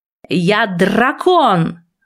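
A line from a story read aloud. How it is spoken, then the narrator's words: Growl. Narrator (Russian): рыкнул он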